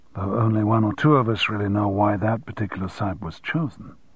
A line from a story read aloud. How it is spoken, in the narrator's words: someone murmured sotto voce behind Townsend